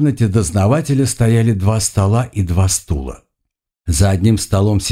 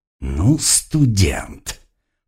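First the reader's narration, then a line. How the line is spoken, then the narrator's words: Angry growl. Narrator (Russian): не скрывая злобы, прорычал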